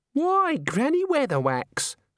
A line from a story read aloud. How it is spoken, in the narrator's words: said the girl happily